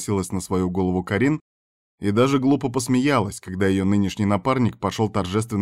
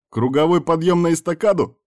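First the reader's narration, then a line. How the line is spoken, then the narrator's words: Cheerful question. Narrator (Russian): спросил весело Вильхар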